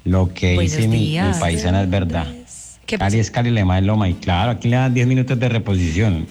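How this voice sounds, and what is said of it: Pleasant regional Colombian Spanish accent. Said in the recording (Spanish): “acento tan lindo”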